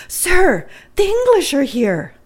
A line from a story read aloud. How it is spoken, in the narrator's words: exclaimed